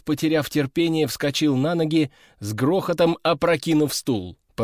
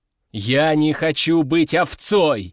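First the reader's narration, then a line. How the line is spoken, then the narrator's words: Shouting, pounding each word. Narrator (Russian): закричал, ударяя кулаком по столу на каждом слове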